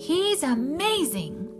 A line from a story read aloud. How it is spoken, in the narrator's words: shouted Moose